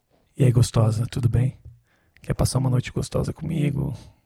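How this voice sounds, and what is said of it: Sultry seductive voice. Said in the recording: “Choose a good voice. Choose a good sexy voice for me.”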